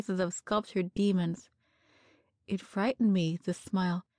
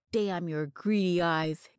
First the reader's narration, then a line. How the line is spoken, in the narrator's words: came back in a growl